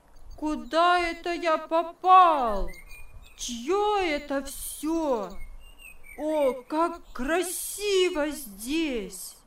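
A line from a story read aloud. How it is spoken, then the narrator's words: Loud joyful shout. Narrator (Russian): от радости громко закричал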